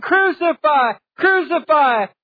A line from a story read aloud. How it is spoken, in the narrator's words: they're shouting